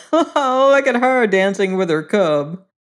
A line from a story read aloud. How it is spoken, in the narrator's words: All the robbers laughed and said